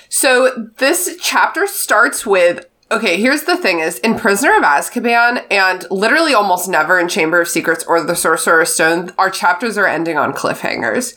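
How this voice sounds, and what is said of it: Congested, stuffy-nosed voice. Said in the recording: “I have terrible allergies. I'm very congested today... my nose is full of boogers”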